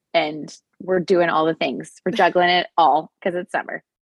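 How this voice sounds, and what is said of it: Slightly scratchy voice. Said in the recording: “my voice is a little scratchy because I just got back from our company's annual convention”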